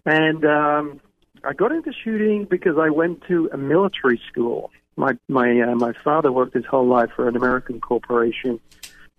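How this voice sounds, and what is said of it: English accent with slight twang. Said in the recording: “you can probably tell by my accent, I wasn't born here in the United States. I was originally from England... My accent's a bit weird since I've lived all over the world and been in the U.S. for a long time, but still have like a twang.”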